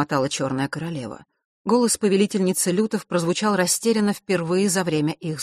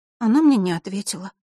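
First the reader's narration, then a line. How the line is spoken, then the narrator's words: Sigh. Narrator (Russian): вздохнула Василиса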